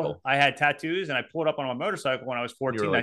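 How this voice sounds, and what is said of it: Usual voice. Nothing is said of it.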